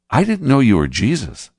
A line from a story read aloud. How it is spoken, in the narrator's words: said Jeremiah